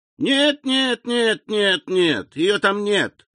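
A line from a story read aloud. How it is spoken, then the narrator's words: Singsong. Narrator (Russian): нараспев отвечал Эдуард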